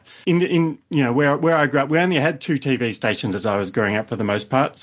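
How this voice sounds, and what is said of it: Australian accent. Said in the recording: “as you probably could tell from my accent, I am from Australia”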